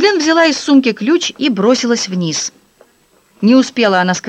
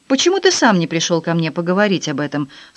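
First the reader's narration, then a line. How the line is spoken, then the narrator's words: Dry question. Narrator (Russian): сухо спросил Филипп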